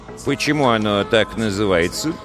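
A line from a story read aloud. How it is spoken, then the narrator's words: Plain. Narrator (Russian): спросил парикмахер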